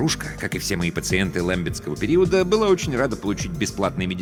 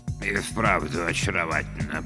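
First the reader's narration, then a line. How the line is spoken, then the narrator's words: Muttered. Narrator (Russian): пробормотал Бёрджесс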